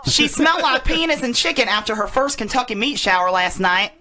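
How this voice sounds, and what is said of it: Put-on Southern US accent. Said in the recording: “in my southern voice.”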